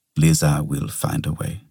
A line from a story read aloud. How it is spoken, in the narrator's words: said Pollard